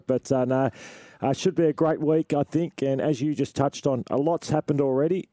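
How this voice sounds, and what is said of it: Raspy, partly lost voice. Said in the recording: “I'm a bit raspy. ... I've lost my voice a bit.”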